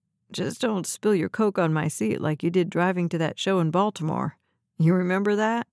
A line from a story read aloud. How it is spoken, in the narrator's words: She laughed